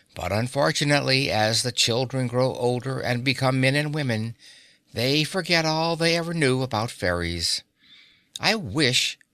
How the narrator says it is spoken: she added wistfully

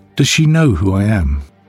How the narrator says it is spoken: Sue laughed gently

